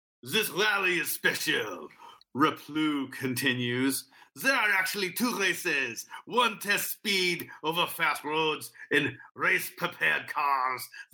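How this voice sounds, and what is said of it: Put-on accent while reading. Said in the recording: “going to give this guy an accent. ... I'm switching accents.”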